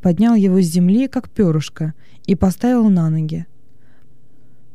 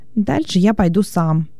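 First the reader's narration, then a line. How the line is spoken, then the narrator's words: Plain. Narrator (Russian): сказал он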